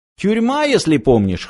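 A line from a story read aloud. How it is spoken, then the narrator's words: Snorting. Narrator (Russian): хмыкнул Фыф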